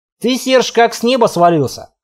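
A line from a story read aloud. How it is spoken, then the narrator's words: Smirking snort. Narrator (Russian): хмыкнул Тор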